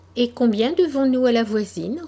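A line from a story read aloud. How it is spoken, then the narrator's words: Light, casual tone. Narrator (French): reprit d'un ton léger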